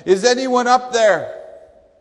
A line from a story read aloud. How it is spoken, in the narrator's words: he started yelling